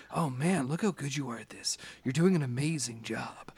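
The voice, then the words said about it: Weird Joker-like character voice. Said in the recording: “the weird voice in your head ... thanks, Joker.”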